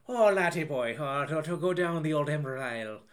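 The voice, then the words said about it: Bad Irish accent, Tommy Lee Jones. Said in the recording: “Tommy Lee Jones ... have him speak in an Irish accent ... if you think my Irish accent is bad”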